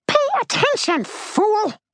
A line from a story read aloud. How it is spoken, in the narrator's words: she screamed